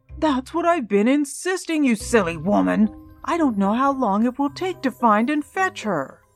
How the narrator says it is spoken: Darling exclaimed

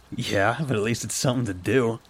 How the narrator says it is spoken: chuckled

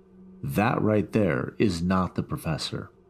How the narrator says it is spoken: The third kid in a totally calm voice said

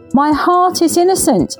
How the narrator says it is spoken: shouted as the verdict was announced

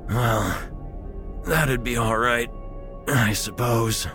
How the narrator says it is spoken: he wheezed

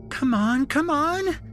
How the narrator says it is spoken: Shelby squealed

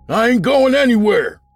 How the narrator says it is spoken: Fred shouted back

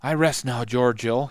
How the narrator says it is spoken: he said breathlessly

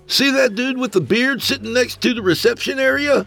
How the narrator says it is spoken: With all the dolls in the room making so much racket, he leaned close to Jeff and yelled

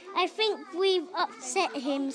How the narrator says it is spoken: said Biff

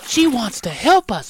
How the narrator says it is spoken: whispered Annie

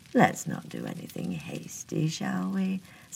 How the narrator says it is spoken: said the sheriff coolly

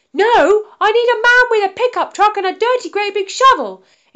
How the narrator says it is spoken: exclaimed Freya

